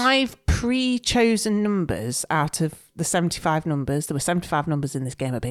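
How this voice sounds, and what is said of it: Usual voice. Nothing is said of it.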